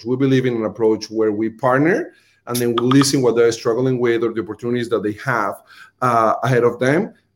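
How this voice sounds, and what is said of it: Colombian accent. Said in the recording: “my Colombian accent”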